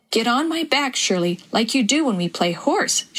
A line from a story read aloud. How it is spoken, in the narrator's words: exclaimed